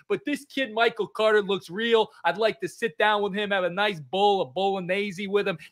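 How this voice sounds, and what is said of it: Put-on Italian accent. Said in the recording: “I feel like my Italian accent changes every week. Can't really get my finger on it.”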